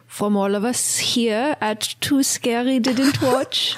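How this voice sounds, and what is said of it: Put-on French accent. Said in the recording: “doing a voice ... I guess French. French. ... I'll do a French, French accent ... that was oh really good ... a good one ... terrible. terrible.”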